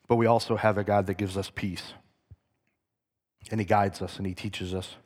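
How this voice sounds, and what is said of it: Worn-out, strained voice. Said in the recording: “My voice is just about done.”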